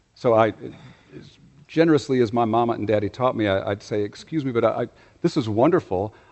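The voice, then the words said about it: Non-local regional accent. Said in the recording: “my accent has already betrayed me to the server that I am not from around here”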